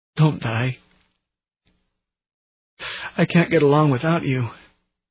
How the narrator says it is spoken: sobbed

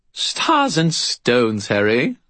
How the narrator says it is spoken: Bob said merrily

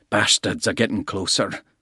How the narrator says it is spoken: Bald growled

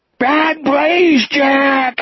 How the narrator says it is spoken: He screamed

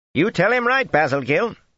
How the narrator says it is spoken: Linny said sharply

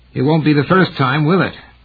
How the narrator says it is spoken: Gerhardt asked, his voice strained and harsh

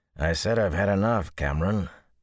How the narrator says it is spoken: the graying man growled

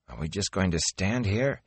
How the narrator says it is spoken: he mumbled

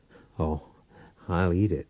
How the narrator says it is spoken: Powell chuckled

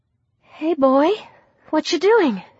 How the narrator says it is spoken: she said softly

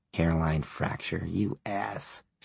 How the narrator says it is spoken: she whispered

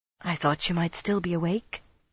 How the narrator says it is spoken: Brianna's voice said softly

